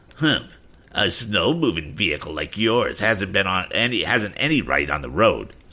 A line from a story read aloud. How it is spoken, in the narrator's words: sneered Andy